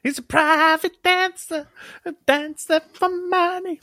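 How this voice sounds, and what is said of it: Good imitation of a singer's voice. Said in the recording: “It is Tina Turner ... It's a good impression as well.”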